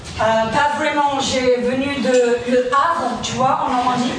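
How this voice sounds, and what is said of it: Heavy English accent in French. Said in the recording (French): “débarque avec un gros accent anglais”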